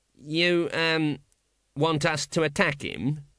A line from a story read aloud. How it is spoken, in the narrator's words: said the guard miserably